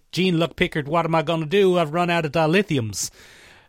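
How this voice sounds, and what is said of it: Exaggerated hick Southern American accent. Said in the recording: “Southern American accent ... that kind of hick, not enough teeth”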